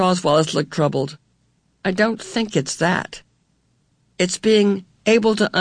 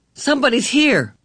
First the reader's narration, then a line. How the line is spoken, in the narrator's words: Charles Wallace said sharply